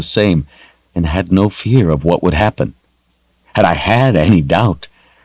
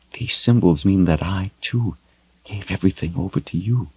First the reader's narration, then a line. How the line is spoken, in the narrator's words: she whispered